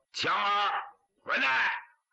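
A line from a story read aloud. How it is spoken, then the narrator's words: Shouted. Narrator (Chinese): 胡大海喊了一声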